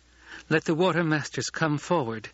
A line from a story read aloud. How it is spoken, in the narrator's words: Chani said, with only the slightest quaver of uncertainty in her girl-child voice